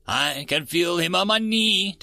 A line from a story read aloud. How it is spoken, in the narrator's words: Delta whimpered